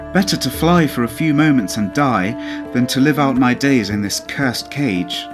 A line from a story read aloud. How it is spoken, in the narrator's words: said the bird, pleaded